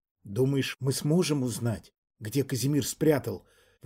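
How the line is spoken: Tense, strained. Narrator (Russian): в напряжении выдавила из себя Рейяна Мнишек

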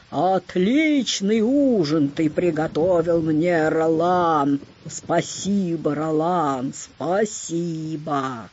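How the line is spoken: Loud booming shout. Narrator (Russian): кричит зычным голосом

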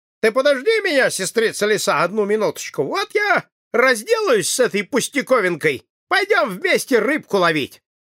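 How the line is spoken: Rabbit speaking loudly. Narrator (Russian): братец-кролик сказал громко, чтобы всякому было слышно

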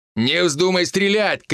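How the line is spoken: Loud shout. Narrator (Russian): крикнул он так, чтобы перепуганная Ника точно услышала

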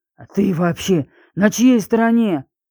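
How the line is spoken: Hoarse rasp. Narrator (Russian): прохрипел Леонид

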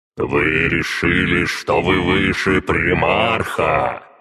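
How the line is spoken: Furious roar. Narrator (Russian): Взревел я, чтобы каждая особь прочувствовала мой гнев

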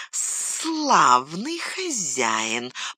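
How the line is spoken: Hissing. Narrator (Russian): прошипел он

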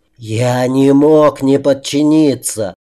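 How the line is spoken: Hissed spitefully. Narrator (Russian): зашипело маленькое злобное создание

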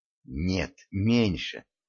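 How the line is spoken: Whisper. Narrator (Russian): также шепотом ответила ему Дашка

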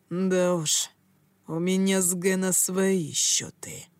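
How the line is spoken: Ominously quiet. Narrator (Russian): зловеще тихим голосом произнес он

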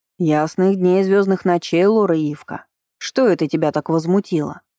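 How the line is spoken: Curious woman's booming voice. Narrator (Russian): прогудела любопытная арчанка

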